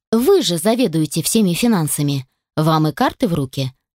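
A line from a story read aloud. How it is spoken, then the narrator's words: Unruffled tone. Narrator (Russian): сказала невозмутимым тоном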